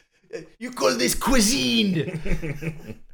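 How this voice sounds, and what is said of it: Exaggerated bad French accent. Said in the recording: “That was a bad French accent, but it was a perfect impression of the French accent from Tiptoes”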